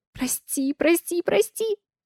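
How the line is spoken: Frightened mutter. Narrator (Russian): Испуганно бормочет она

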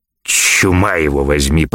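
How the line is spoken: Grumbling. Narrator (Russian): проворчал Тагабар

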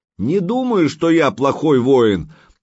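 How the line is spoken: Yelling back. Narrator (Russian): заорал в ответ Санек

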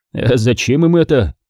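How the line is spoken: Short laugh. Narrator (Russian): хохотнул Нилин

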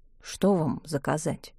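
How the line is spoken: Quiet, dreamlike question. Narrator (Russian): Яков тихо, словно в состоянии сомнамбулизма, спросил

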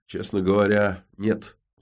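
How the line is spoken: Sighing. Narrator (Russian): вздохнул Кортес

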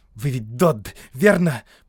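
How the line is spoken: Muttered through teeth. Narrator (Russian): процедил прапорщик

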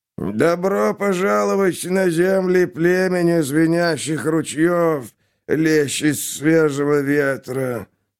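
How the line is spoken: Creaky voice. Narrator (Russian): проскрипел глава совета

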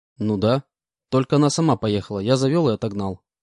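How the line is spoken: Calm reply. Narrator (Russian): спокойно ответил

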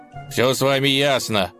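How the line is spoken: Grumbled. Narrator (Russian): проворчал он

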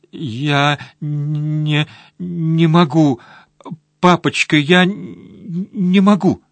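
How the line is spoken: Struggling through sobs. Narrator (Russian): Сквозь всхлипывание он с трудом произнес

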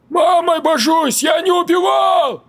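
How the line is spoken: Desperate near-howl. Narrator (Russian): Чуть ли не взвыл волком Нарик

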